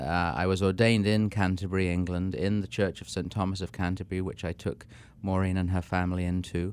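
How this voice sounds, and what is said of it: English accent. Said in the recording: “Our listeners can hear from your accent.”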